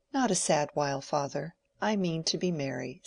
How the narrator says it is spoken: said Mary, laughingly

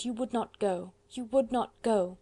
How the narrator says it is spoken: she murmured

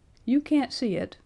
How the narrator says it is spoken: explained Perry, peering anxiously

